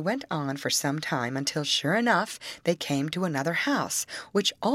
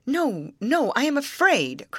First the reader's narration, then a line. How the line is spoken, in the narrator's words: cried the queen